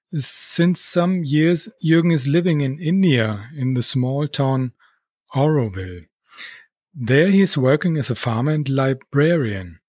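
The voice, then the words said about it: German-accented English. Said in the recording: “is German as well, so you can enjoy our German accent”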